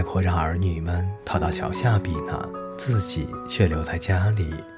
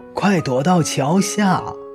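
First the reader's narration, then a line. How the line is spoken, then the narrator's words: Urgent shout. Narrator (Chinese): 她就大喊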